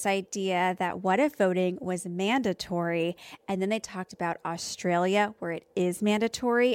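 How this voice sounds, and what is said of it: Usual voice. Nothing is said of it.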